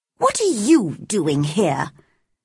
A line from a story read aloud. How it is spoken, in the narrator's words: she asked crossly